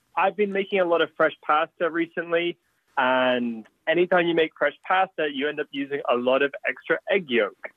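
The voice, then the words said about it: Slight foreign English accent. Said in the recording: “I hear a little accent there.”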